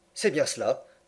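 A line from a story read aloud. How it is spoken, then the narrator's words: Murmured. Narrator (French): murmura Passepartout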